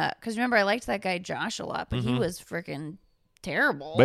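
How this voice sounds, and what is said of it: Usual voice. Nothing is said of it.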